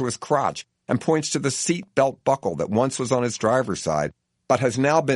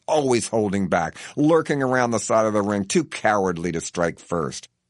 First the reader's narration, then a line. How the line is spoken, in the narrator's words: he growls